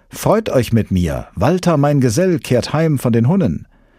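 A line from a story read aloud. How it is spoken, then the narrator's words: Called out. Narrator (German): rief Hagen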